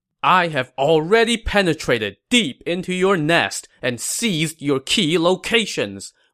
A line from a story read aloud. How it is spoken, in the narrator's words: Wei Yan shouted sternly from his horse